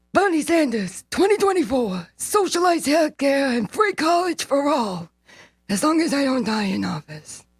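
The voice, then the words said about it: Imitates another person's voice. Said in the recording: “fantastic Bernie impression.”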